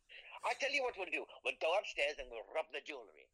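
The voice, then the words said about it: Put-on Indian accent. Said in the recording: “Are you Indian all of a sudden? ... You just change your accent so often.”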